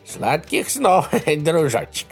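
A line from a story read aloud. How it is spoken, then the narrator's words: Chuckling. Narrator (Russian): хохотнул Джори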